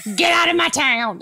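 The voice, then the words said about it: Put-on Southern accent. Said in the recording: “that was Southern accent.”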